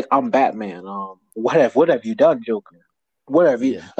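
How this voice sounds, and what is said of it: Imitates Batman's voice. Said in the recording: “He's like, how do he talk? ... his voice is so distinguished”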